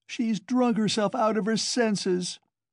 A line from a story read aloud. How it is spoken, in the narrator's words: the same woman's voice wailed